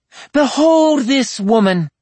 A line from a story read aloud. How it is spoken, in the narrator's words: Morgan shouted over the sudden din of voices